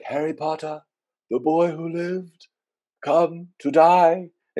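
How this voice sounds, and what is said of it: Voldemort impression, Ralph Fiennes voice. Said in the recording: “Great impression. ... my Ralph Fine”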